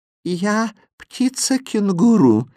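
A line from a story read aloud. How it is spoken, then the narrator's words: Sweet sung monster voice. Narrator (Russian): нежным голосом пропело чудовище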